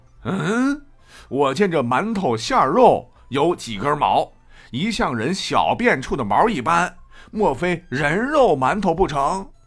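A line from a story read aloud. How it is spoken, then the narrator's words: Exclaiming. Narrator (Chinese): 武松却叫道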